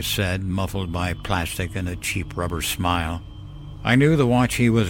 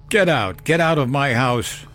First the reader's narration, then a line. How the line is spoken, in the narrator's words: shouted, though my voice was still weak